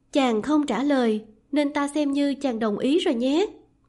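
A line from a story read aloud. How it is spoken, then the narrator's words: Smiling. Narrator (Vietnamese): Lý Doanh mỉm cười nói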